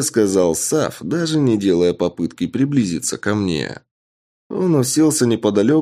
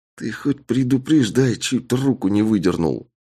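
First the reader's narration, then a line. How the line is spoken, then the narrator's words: Angry hiss. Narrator (Russian): Зло прошипел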